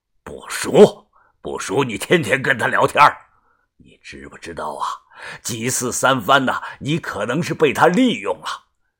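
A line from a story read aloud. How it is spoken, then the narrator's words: Angry scolding. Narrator (Chinese): 怒声的呵斥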